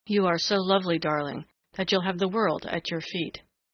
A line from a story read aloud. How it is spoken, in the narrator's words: said the young man huskily